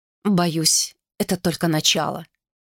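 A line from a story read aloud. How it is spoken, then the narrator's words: Muttered. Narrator (Russian): пробормотала она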